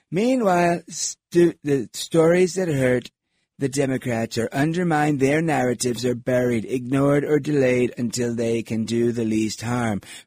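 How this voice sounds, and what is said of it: Donald Trump impression. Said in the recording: “I should be doing this in my Trump voice, right? ... I can't do it for that long”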